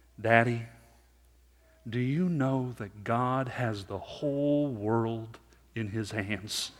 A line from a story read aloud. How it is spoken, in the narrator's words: my 5-year-old son, he said slowly